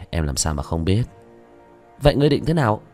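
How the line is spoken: Sighing. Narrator (Vietnamese): Vương Quân Diệt thở dài

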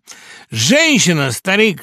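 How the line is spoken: Exclaimed jubilantly. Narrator (Russian): ликующе воскликнул он

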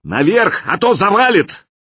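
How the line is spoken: Shout. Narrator (Russian): я крикнул

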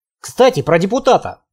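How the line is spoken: Snorting. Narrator (Russian): хмыкнул

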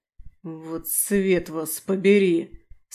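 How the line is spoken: Strained hiss. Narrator (Russian): С натугой прошипел демон

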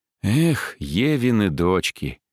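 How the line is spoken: Sighing. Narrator (Russian): вздохнул я

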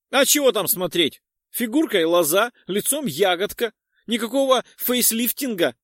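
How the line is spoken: Laughing loudly, woman. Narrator (Russian): расхохоталась, продолжив на португальском

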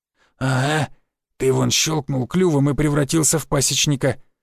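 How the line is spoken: Hoarse wheeze. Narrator (Russian): просипел Барян

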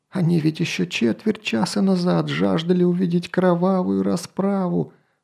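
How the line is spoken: Groaning aloud. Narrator (Russian): простонал вслух свои мысли министр

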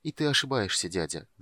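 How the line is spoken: Timid young man. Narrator (Russian): добавил юноша робко

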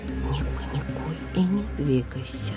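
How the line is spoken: Whisper. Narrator (Russian): прошептала я

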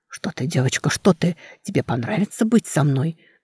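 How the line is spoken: Halting whisper. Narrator (Russian): Сбивчиво зашептал невидимка

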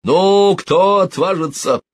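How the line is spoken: Captain shouting. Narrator (Russian): крикнул капитан

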